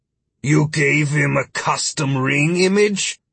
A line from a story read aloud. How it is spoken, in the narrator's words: Philip grumbled